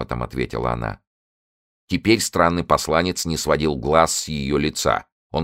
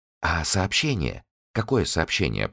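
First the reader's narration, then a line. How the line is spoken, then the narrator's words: Whisper. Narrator (Russian): прошептала Би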